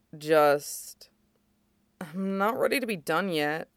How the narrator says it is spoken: mumbles

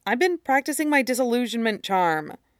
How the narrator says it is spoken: said quietly

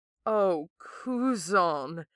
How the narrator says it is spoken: Zuko moans

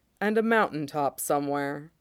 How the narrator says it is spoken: he says dryly

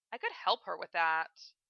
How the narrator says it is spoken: Philia said in a bored tone

